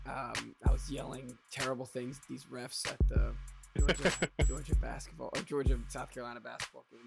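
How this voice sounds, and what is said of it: Scraggly, hoarse voice. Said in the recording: “My voice is all scraggly ... it's gotten worse in like the last 20 seconds ... Just sounds scraggly”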